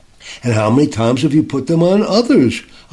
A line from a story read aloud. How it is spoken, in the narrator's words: asked